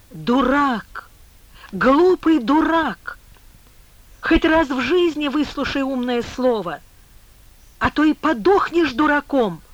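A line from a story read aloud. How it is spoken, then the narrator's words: Angry trembling shout. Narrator (Russian): Злым, дрожащим голосом закричал Коля База, возмущенный тем, что не поняли и не приняли его чистых намерений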